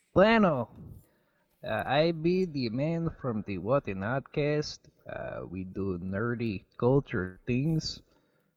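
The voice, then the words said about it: Put-on accent. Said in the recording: “Good accent.”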